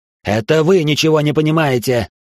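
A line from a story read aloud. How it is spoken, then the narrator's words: Sudden furious bark. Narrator (Russian): рявкнул внезапно в бешенстве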